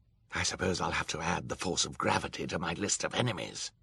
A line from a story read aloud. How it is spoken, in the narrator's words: Olaf muttered